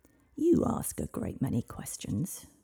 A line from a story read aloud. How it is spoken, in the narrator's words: growled the dragon